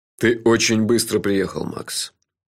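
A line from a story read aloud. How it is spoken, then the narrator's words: Sad. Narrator (Russian): печально сказал шеф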